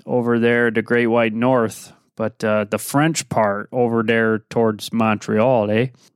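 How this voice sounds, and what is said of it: Put-on Canadian accent. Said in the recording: “all my Gooper buddies will probably like my accent there, eh? Get your toques out”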